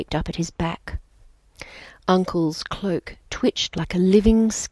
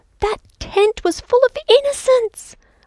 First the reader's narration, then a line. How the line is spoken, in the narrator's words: screamed